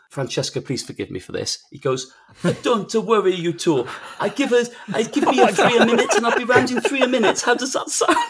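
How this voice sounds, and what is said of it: Italian accent impression. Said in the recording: “score ... between 1 and 10 for his impression ... Italian impersonation”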